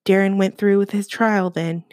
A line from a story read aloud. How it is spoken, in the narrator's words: he says